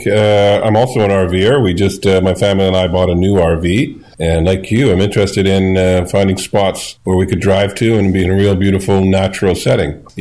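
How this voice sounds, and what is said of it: Canadian accent. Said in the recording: “is from Canada. I could tell it in his accent”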